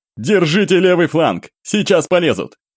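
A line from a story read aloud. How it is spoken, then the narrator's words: Loud command. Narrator (Russian): Громко бросил Святогор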